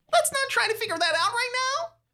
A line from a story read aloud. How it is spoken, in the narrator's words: Julie cries